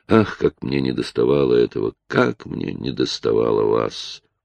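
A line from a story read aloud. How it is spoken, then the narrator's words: Whisper. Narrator (Russian): А он шептал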